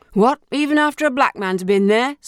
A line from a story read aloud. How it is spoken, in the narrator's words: slurred the elder, drunkenly